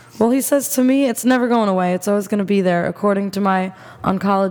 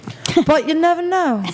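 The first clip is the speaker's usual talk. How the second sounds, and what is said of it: Attempted British accent sounding Australian. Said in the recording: “You have to do it in a British accent ... I don't think that was British ... It was close ... that's more Australian ... the up is Australian”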